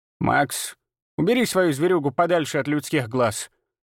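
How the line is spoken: Worried grumble. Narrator (Russian): озабоченно проворчала Ирма

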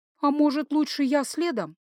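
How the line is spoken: Uncertain suggestion. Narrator (Russian): неуверенно предложила я

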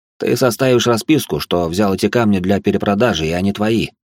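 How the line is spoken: Plain. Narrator (Russian): сказал он

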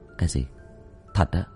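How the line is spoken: Soft, puzzled question. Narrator (Vietnamese): khẽ hỏi lại nó

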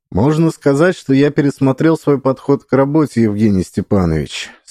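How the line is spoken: Even voice. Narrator (Russian): сказал я ровным голосом

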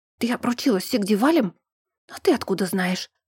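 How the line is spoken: Whispered question. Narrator (Russian): спросила тоже шепотом

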